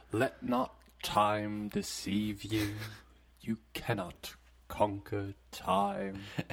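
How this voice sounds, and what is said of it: Slow, grand, presentational delivery. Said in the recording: “I still speak as grandly as possible ... very slowly ... very presentationally”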